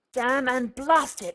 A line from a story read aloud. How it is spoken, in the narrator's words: he grated through his teeth